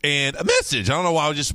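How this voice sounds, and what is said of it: Voice cracks like a pubescent boy. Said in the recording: “my voice cracked and went through puberty there for a second ... my voice cracked like I was going through puberty”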